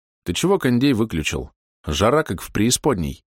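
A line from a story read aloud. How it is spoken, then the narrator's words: Grumbling. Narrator (Russian): проворчал Борис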